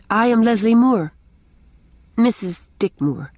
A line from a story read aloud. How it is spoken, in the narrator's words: she added stiffly